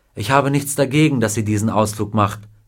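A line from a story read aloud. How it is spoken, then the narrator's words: Plain. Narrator (German): sagte Mrs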